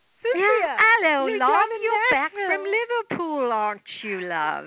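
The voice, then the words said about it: Bad put-on English accent. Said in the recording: “that was my really bad English accent.”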